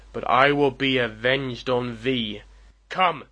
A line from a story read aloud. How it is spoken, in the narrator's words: roared the digger of romance